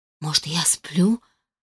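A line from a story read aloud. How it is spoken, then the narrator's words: Barely audible mutter. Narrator (Russian): пробормотала едва слышно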